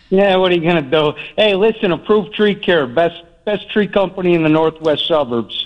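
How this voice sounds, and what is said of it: Thick Chicago accent. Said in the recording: “you got a thick Chicago accent”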